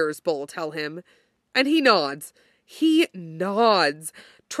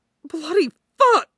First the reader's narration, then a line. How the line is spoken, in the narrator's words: he hisses